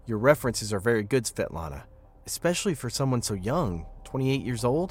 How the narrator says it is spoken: I said

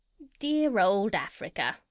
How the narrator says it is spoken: sighed Polynesia

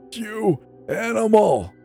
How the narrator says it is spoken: Marjorie wailed

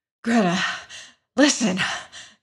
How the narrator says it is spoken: he panted

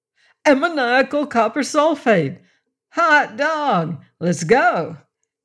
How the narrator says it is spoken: He yelled

